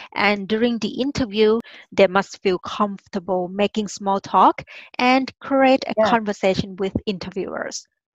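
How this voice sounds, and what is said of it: Thai accent in English. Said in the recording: “hide our accent ... my accent ... I'm originally from Thailand. We call ourselves monotone people. We have just one tone.”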